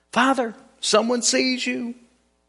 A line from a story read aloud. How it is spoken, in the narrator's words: The little child, after a time, cried out again